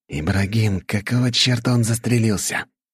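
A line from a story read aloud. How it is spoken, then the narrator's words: Hissed. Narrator (Russian): прошипел кто-то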